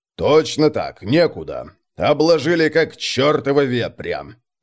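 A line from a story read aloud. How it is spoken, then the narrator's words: Displeased grumble. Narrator (Russian): пробурчал недовольно полководец, который терпеть не мог чиновников и любые официальные переговоры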